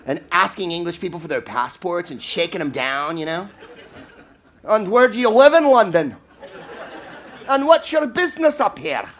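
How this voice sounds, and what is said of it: Put-on Scottish accent. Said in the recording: “That was a Scottish accent, by the way.”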